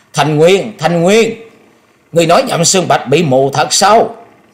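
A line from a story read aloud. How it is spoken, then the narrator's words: Shrill loud shriek. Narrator (Vietnamese): cao giọng hét lên thè thé nói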